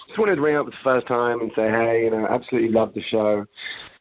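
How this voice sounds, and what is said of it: London English accent. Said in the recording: “it doesn't sound like he's from Orange County. You can hear it... Despite my accent... I'm actually over in London, my original hometown”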